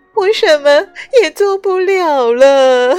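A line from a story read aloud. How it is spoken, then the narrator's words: Crying. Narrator (Chinese): 他哭道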